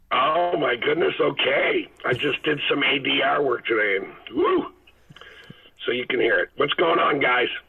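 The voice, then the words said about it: Hoarse voice. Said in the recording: “does this sound okay? Because I'm very hoarse. ... You do sound a little hoarse.”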